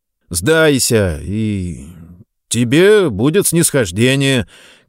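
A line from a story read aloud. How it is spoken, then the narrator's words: Somewhat uncertain. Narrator (Russian): как-то неуверенно продолжил Рыльский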